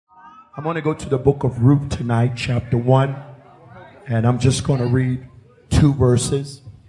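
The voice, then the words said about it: Tired, worn-out voice. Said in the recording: “As you can hear, my voice is exhausted.”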